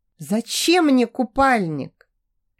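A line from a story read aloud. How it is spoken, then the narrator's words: Dreamy sigh. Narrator (Russian): Иволга мечтательно вздохнула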